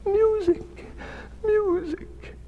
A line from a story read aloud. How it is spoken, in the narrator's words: shrieked the emperor